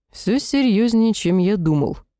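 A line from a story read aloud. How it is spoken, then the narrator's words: Grumbling. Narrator (Russian): пробурчал Сахарель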